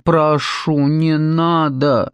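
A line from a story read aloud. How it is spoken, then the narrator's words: Mock pleading. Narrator (Russian): насмешливо взмолилась Морвин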